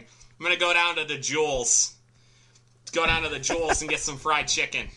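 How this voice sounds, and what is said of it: Put-on thick Chicago accent. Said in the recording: “Chicago accent ... I have a very thick Chicago accent ... You also have to add S's to everything ... you just got to get the long A's”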